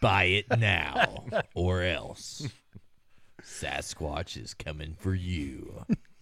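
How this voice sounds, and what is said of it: Movie trailer announcer voice. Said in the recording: “That's Uber trailer voice there. ... He does have a great trailer voice.”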